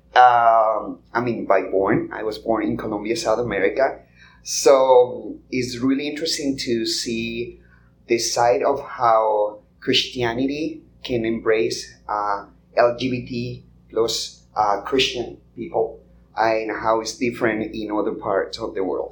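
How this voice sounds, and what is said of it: Non-American accent. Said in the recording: “You can tell from my accent that I am not American.”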